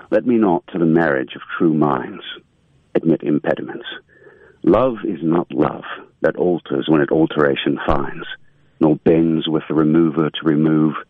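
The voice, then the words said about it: Put-on British accent. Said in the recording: “give us your best British accent”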